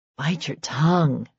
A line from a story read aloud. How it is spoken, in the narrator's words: Serena muttered